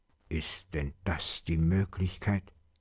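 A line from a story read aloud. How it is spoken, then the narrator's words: Father's muttered grumble. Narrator (German): brummte der Vater in seinen Bart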